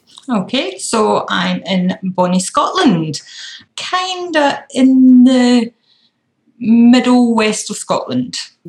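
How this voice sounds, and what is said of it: Broad Scottish accent. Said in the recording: “hailing from Scotland ... I hope the accent isn't too broad.”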